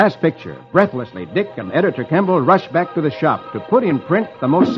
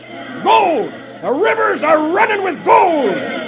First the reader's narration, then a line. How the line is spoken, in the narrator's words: one of the men shouts